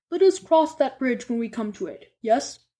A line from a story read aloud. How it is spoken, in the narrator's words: Dumbledore said